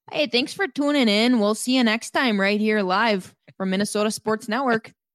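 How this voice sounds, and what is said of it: Exaggerated Minnesota accent. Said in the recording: “anytime I do a voice, I go immediately to Super Minnesota.”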